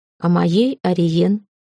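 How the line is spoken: Calm reply. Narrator (Russian): спокойно отозвался Сокол

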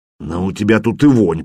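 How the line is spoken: Grumbling. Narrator (Russian): проворчал Ульфхам

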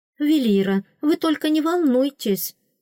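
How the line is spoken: Exclaiming. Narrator (Russian): воскликнула Лира Фрис

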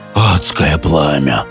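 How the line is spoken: Muffled complaint. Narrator (Russian): глухо пожаловался он

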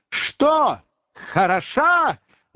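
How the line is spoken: Loud hoarse shout. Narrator (Russian): громко крикнула охрипшим голосом Маргарита Николаевна

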